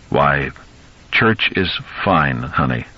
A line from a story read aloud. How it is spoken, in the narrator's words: Lewis said slowly